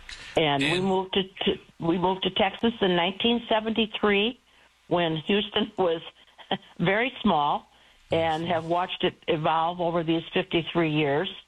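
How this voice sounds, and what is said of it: Chicago accent. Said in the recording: “as you probably can hear, I am not a born Texan. Everybody keeps telling me I still have my Chicago accent”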